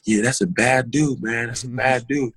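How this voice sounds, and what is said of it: Put-on American accent. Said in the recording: “he came with this straight American accent ... tell us about Kevin Durant with this American accent”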